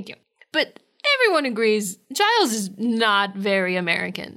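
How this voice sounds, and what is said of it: Usual voice. Nothing is said of it.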